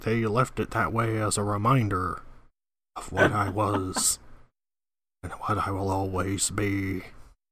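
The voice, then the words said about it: Richard Nixon impression. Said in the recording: “good Richard Nixon impression”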